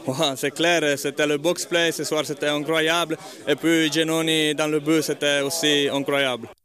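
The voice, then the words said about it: Noticeable accent, not Swiss German. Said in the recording (French): “un magnifique accent ... c'est pas l'accent qu'on s'attend à entendre pour le hockey ... On attendait un truc un peu plus légèrement suisse-alémanique.”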